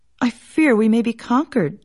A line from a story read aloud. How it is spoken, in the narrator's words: sighed the man